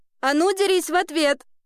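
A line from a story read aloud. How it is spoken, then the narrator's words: Yelling. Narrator (Russian): орала Ева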